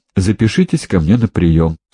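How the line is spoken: Dry advice. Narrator (Russian): сухо посоветовал Лаврентьев

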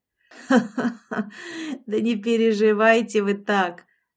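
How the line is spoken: Croaking laughter. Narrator (Russian): засмеялась Лолита каркающим смехом

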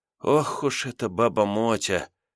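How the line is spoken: Hoarse muttering. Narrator (Russian): хрипло бормотала Лиза

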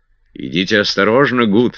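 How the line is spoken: Plain. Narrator (Russian): сказал сэр Генри

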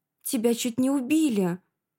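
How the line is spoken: Astonished exclamation. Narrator (Russian): воскликнула я, поражаясь такой беспечности

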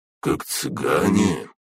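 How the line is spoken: Speculative. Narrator (Russian): предположила Фая

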